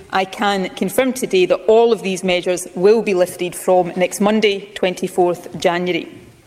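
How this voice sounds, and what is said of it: Scottish accent. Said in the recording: “I love the Scottish accent. I love it. If I could pick any accent to have, it'd be the Scottish accent”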